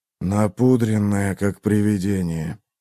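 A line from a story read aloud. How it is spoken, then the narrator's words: Grumbling. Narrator (Russian): проворчал Эйзенхорн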